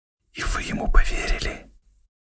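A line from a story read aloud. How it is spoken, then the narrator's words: Whisper. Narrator (Russian): прошептал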